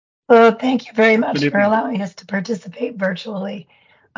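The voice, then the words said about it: Sick-sounding voice. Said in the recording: “as you can hear from my voice, this is why I'm not joining you. I don't want to spread the wealth.”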